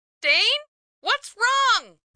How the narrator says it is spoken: Corey yelled

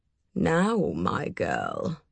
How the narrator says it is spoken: he said in a gentle growl

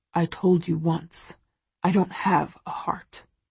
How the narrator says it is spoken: he mutters

